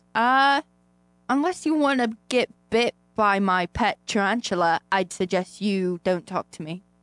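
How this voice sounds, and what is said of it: Put-on Australian accent. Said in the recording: “I'm going to do an Australian accent for the rest of the show.”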